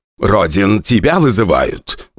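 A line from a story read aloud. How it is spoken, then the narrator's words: Rough, rude. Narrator (Russian): грубо сказал Борис Николаевич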